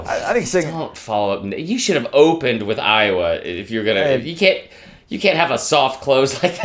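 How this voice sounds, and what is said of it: Usual voice. Nothing is said of it.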